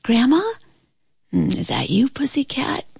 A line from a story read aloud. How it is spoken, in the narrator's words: she answered in a sleepy voice